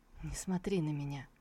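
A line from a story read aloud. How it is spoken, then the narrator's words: Barely audible whisper. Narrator (Russian): прошептал он еле слышно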